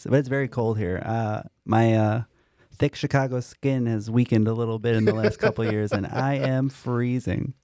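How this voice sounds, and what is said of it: Midwestern accent, nasal cold-like sound. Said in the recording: “We can hear your allergies coming back a little bit ... it's my Midwest accent ... It just sounds like you have a cold always.”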